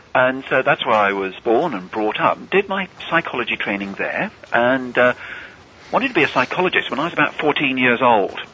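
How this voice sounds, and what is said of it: English accent. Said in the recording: “clearly by my accent, I'm English.”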